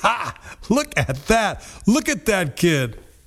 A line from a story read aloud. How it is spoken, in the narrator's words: His friends laughed hard, laughed like mockers and scoffers